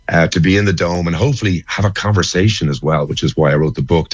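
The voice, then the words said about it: Slightly crackly voice. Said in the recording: “my voice is a little bit crackly”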